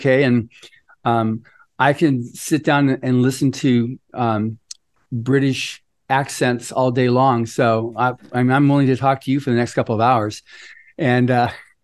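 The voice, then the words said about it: American accent. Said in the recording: “for us to hear the American accent”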